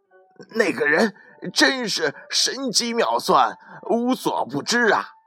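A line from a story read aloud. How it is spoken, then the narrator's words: Terrified shouting. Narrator (Chinese): 惊恐万分，使劲的嚷道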